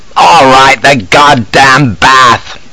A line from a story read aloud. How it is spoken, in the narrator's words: roars